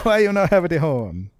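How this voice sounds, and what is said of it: Exaggerated mock Italian accent. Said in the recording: “her Italian family ... That's not me doing that accent. That's the offensive accent that's in the film.”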